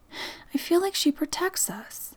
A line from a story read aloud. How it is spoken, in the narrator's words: Amber sighed, clearly conflicted about kicking out this ghost woman who she regarded as a friend